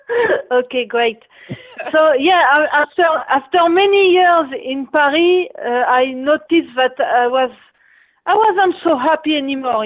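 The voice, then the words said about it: Strong foreign accent. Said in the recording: “I have a strong accent ... yeah, you do. But I can understand you.”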